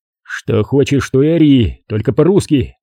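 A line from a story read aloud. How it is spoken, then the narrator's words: Good-natured grumble. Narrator (Russian): добродушно проворчал Серега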